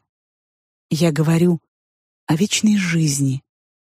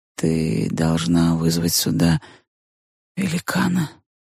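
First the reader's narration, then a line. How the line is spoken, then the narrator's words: Quiet, after hesitant pause. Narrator (Russian): Помолчав немного и собравшись силами, моя подруга тихо сказала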